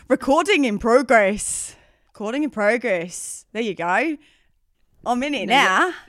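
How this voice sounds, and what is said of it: Bad put-on Australian accent. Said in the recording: “You sound terrible. ... Well, that was horrifying. ... that horrific attempt at an Australian”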